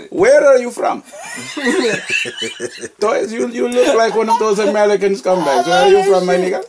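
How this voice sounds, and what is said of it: Put-on Middle Eastern accent. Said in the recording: “You try to do a Middle Eastern ISIS accent.”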